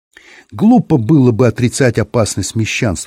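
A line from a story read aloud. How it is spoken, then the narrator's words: Plain. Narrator (Russian): сказал Белла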